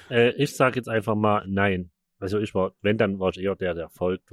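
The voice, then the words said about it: Saxon German accent. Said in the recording (German): “das klingt auf Sächsisch nochmal viel bedrohlicher.”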